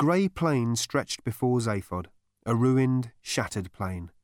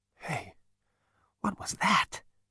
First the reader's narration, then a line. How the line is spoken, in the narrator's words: he muttered voicelessly